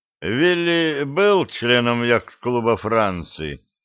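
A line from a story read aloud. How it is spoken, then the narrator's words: Deliberately indifferent question. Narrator (Russian): спросил Мегре нарочито безразличным тоном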